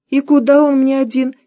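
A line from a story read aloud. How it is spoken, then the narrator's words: Giggling. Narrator (Russian): хихикнула Зина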